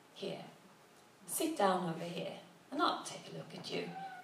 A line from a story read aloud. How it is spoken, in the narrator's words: he said gently